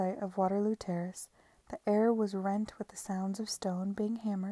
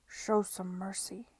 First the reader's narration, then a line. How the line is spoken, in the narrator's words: he muttered